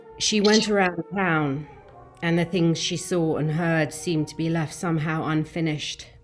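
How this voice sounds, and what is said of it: Northern English accent. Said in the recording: “I'll just do it in my North English accent.”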